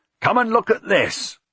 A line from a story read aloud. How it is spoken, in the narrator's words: Milius stayed there and shouted